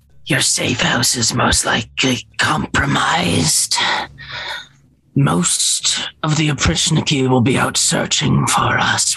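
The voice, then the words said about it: Raspy character voice. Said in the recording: “in her raspy voice. God, I fucking hate this voice.”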